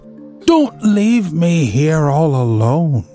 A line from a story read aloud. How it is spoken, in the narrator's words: she cried out, catching her suspended breath